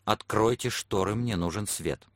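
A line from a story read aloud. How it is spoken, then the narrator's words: Sharp frightened whisper. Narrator (Russian): он испуганно вздрогнул и сказал резким шепотом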